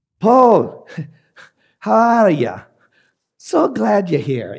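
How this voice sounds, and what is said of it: Poor put-on Scottish accent. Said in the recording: “a terrible Scottish accent”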